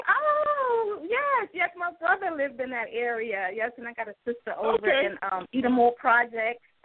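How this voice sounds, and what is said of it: New York accent. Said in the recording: “I guess I never lost the New York accent.”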